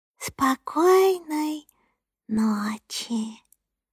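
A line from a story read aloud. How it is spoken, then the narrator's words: Whisper. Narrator (Russian): шепнула Соня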